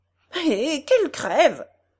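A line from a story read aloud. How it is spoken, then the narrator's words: Exclaiming. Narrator (French): s'écria mademoiselle Cormon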